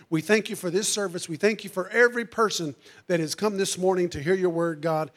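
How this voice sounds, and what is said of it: Strained, hoarse failing voice. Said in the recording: “I'm losing my voice”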